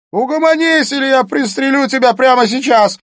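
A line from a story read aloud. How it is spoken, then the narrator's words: Shouted threat. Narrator (Russian): закричал Смит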